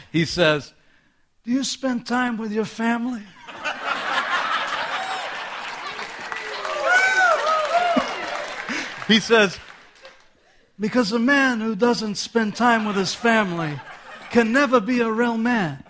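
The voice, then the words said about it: Godfather film character impression. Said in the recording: “my Godfather impression”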